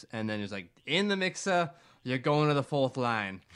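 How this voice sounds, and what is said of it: Poor imitation of another person's voice. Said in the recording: “That's a terrible, terrible Capuano accent”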